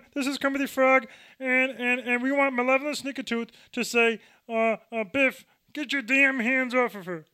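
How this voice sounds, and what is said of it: Poor Kermit the Frog impression. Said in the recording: “your impression of Kermit the Frog. It's like, hi, I'm Joe Pesci. How you doing? It's crap.”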